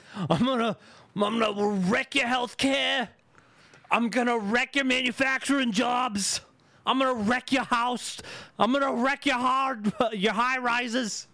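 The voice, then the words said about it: Weak impression of a politician. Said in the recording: “I don't have a good Bernie Sanders yet.”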